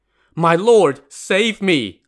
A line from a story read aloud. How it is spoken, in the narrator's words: Lin Chong cried in desperation